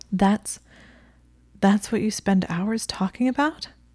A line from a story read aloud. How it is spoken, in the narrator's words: She gasped